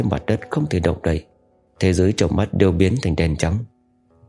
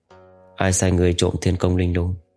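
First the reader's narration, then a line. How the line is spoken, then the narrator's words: Plain. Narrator (Vietnamese): Cố Mạch hỏi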